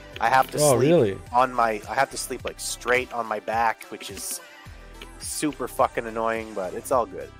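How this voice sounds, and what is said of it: Hoarse, partly gone sick voice. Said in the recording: “under the weather ... little flu-y ... My voice is a little bit gone. My throat is fucking killing me.”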